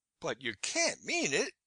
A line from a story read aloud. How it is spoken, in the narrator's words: I cried out, overcome with the horror of it